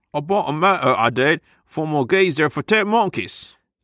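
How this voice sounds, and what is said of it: Put-on Cockney accent. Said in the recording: “You're spiraling into Cockney accent land.”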